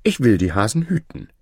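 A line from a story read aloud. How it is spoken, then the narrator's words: Cheerful. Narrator (German): fröhlich hin zum König und sprach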